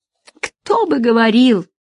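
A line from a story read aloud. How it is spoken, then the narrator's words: Matching exclamation. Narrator (Russian): в тон ему воскликнула Нина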